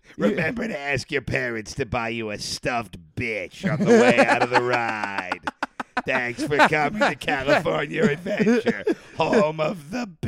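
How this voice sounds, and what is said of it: Raspy, hoarse, damaged voice. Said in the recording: “my voice is bad ... what if I talked like a chainsaw? ... You sound like if Kermit the Frog did an anti-smoking campaign.”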